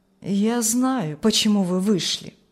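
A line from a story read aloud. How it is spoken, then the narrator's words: Plain. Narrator (Russian): сказал маркиз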